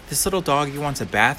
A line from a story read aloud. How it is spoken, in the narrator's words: cried the little girl